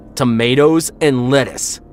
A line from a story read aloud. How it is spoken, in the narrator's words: shouted